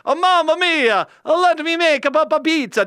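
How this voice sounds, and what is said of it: Put-on Italian accent. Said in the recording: “As only a Scotsman can do an Italian accent”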